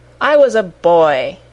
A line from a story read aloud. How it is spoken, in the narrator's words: he said impatiently